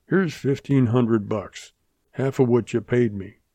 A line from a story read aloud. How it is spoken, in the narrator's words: he said